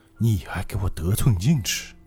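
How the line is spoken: Whispering. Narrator (Chinese): 外面那个人在小声低语

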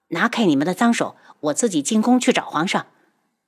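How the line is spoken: Cold. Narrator (Chinese): 陈旭宇冷声道

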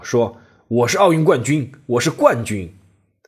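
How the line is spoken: Shouting in restaurant. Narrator (Chinese): 阿里在餐馆里面喊道

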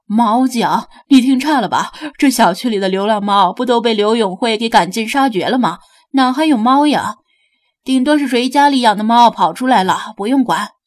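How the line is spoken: Laughing veteran guard. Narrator (Chinese): 另一个老资格的保安笑道

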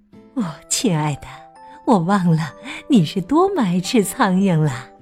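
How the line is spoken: Sighing. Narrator (Chinese): 麝鼠太太叹了口气

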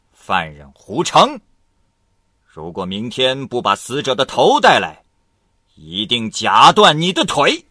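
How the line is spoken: Stern shout. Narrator (Chinese): 厉声喝道

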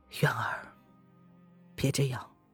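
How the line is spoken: Sighing. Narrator (Chinese): 叶轩寒…皱着眉头…他叹了一口气

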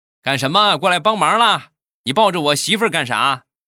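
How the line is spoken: Shouting. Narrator (Chinese): 我岳父转身就冲着我就喊

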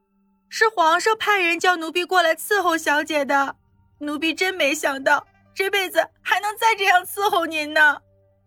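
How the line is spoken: Tearful, crying. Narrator (Chinese): 碧儿眼泪登时就流了下来，哭着说道

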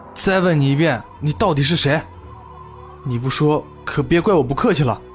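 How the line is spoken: Low, threatening. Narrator (Chinese): 我深深的吸了口气，低声道

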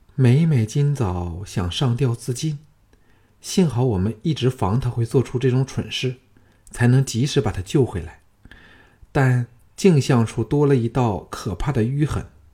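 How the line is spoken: Soft sigh. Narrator (Chinese): 轻叹说

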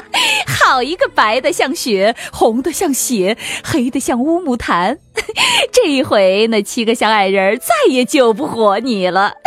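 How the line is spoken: Wild, cruel laughter. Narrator (Chinese): 王后狂笑道

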